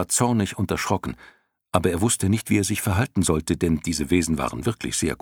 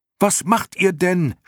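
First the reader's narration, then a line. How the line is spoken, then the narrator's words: Shout. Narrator (German): schrie Bastian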